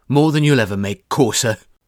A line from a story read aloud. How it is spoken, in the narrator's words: he spit